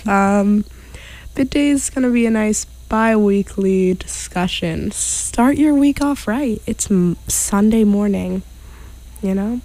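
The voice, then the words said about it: Raspy voice. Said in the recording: “excuse my raspy voice”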